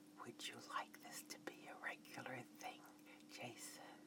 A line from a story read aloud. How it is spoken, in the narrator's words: whispered into his right ear